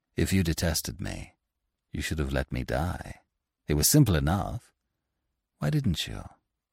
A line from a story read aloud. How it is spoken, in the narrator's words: He said to her, gently